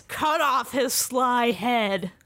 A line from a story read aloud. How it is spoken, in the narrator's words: Morpheus shouts